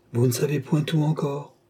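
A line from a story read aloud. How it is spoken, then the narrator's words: Murmured. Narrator (French): murmura Marthe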